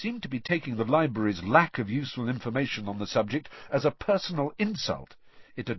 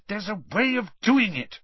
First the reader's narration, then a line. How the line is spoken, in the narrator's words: Hermione said crossly